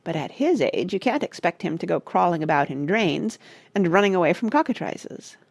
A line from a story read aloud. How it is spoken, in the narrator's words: said Parrot dryly